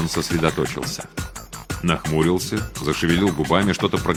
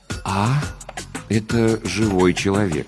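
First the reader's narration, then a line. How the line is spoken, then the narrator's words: Hesitant. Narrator (Russian): неуверенно начал он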